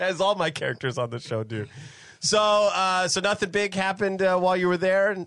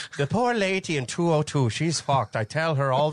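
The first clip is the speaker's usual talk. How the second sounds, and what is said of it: Put-on Irish accent. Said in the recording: “I don't even know why she's Irish. ... Or if that is an Irish you, accent.”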